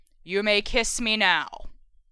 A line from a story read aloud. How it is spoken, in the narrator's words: the mirror intoned in its regular, scary voice